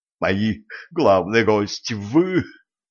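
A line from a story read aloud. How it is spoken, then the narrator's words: Baron's breathy exhale. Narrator (Russian): страдостно выдохнул барон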